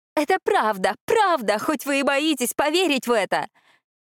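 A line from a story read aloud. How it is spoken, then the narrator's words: Hysterical shouting. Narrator (Russian): кричала дошедшая до состояния истерики графиня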